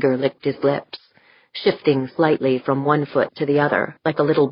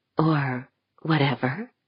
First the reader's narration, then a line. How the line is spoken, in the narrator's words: she whispered